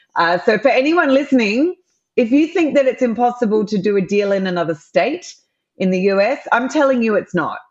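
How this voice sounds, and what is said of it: Australian accent. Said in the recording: “for those that can hear my accent, I'm an Aussie”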